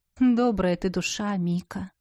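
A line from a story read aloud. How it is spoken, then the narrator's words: Sighing. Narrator (Russian): вздохнул герцог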